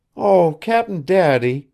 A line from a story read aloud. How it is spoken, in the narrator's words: she had once cried to Billy, when something had stirred her childish depths